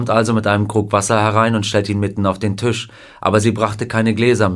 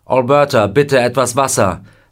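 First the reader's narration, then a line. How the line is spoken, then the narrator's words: Called out. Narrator (German): er ruft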